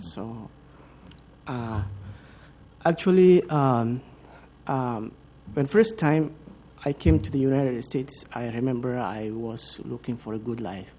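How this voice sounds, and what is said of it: Non-native immigrant English accent. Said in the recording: “I'm actually an immigrant. Hope you don't have a problem with the immigrant accent.”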